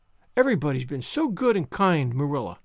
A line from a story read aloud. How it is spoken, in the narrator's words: sighed Anne happily